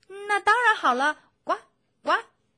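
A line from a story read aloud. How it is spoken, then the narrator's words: Happy loud child voice. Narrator (Chinese): 青蛙宝宝很高兴，他大声地说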